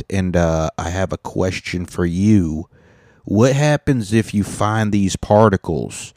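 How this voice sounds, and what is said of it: Put-on American accent. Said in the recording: “I'm just an American with an American accent.”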